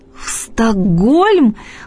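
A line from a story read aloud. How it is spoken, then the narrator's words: Exclamation. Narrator (Russian): воскликнула я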